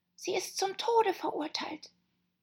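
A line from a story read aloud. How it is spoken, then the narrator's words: Whisper close to ear. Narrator (German): hielt den Mund dicht an ihr Ohr und flüsterte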